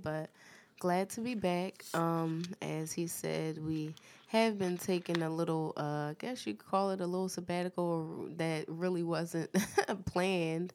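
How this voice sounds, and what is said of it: Voice rough from a cold. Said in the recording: “excuse my voice, I have a little bit of a cold”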